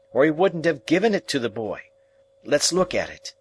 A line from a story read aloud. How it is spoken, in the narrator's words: Joe triumphantly